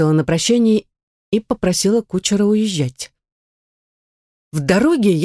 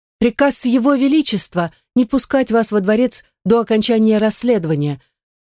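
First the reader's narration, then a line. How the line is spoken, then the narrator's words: Girl shouting. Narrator (Russian): выкрикнула девушка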